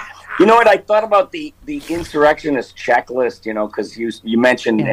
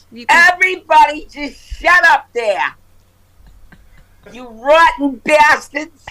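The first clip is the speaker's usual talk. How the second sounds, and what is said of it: Imitates another person's voice. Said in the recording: “your Marge Schott impression”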